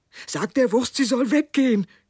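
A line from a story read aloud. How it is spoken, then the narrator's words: Man calling out. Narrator (German): rief der Mann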